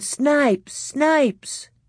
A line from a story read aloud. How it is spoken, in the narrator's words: All the boys were pointing and yelling